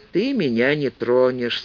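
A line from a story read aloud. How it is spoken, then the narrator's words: Calm woman's answer. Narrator (Russian): спокойно ответила женщина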